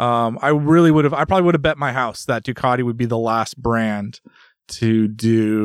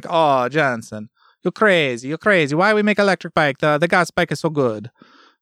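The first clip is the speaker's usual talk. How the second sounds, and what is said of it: Imitates another person's voice. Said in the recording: “my best Claudio impression”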